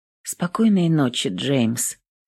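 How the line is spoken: Muttered. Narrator (Russian): Пробормотала Эвелин

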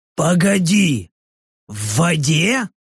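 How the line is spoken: Short growl. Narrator (Russian): Рыкнул Рек

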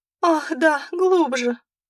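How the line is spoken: Whimpering girl. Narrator (Russian): проскулила девушка

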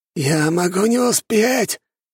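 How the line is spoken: Weak, exhausted wheeze. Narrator (Russian): прохрипел Локи из последних сил

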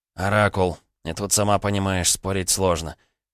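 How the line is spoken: Mutter. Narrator (Russian): пробормотал Егор

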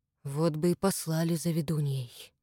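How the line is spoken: Quiet complaint. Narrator (Russian): негромко посетовал Иван

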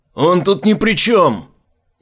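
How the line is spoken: Helpless cry. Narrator (Russian): беспомощно выкрикнул Айзек

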